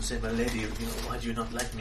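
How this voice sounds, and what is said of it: Put-on Spanish accent. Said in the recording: “Blackjack uses this sort of Spanish accent ... you're using the Spanish accent.”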